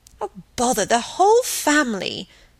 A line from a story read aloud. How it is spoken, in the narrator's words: snapped Margaret